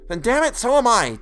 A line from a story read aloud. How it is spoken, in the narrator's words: Todd snapped